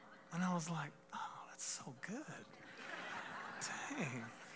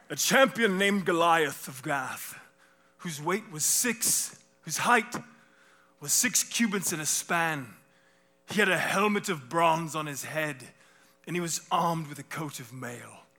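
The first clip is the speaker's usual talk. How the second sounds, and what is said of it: Dramatic, almost-British reading voice. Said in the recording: “It's not quite a British accent, but it's like a Charlton Heston, right?”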